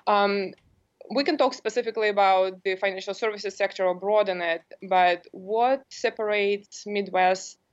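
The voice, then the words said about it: Non-local foreign accent. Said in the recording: “as you can tell by my accent, I'm not from here originally”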